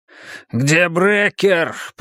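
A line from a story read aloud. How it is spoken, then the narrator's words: Growl. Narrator (Russian): прорычал Рой Акке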